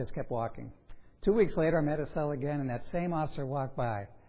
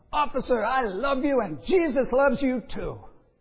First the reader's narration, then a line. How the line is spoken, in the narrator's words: yelled out